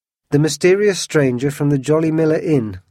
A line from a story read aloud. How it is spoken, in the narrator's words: cried D'Artagnan